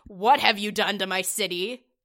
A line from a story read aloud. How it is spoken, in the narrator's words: a very angry growling on the other end